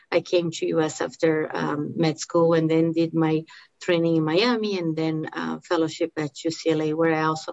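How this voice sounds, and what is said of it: Brazilian accent. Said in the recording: “the accent that you're hearing is because I uh, I'm from Brazil.”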